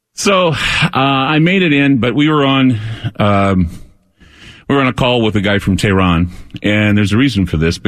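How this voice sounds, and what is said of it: Out of breath, catching breath. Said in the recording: “if I sound like I'm out of breath, I'm getting my breath ... I'm getting my breath back”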